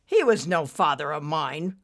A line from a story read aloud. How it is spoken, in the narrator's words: Ricky sneered